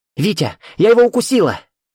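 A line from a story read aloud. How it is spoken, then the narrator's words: Triumphant shout. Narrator (Russian): торжествующе крикнула Катя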